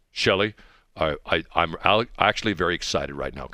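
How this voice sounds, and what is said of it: Stereotypical FBI agent voice. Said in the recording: “They all talk like this... I'm an FBI agent”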